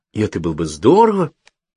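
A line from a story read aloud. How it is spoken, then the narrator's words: Exclaimed. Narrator (Russian): воскликнул я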